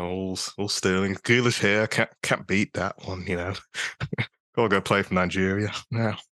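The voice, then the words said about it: Put-on British accent. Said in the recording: “I had to flex my British little roots there... that was embarrassing”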